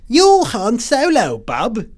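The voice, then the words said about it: Exaggerated British accent imitating Rey. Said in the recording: “I like to exaggerate the British accent.”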